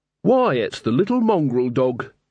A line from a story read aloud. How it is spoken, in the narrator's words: said